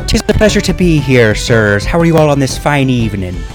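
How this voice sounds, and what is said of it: Put-on Irish accent. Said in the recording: “What the fuck is that accent? ... It is an Irish accent.”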